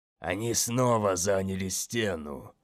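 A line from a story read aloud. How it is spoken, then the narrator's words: Muttering. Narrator (Russian): пробормотал Мазалай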